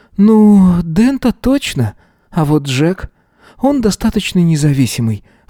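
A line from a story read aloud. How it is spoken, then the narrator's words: Sighing reply. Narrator (Russian): ответила, вздохнув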